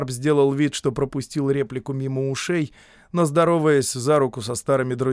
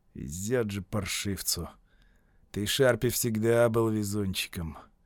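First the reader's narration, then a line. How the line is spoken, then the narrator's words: Spoken through gritted teeth. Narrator (Russian): смуглолицый Кроули, процедил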